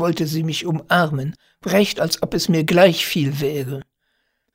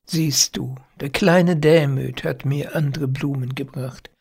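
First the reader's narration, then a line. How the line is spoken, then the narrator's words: Sad and tender. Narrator (German): sagte sie traurig und zärtlich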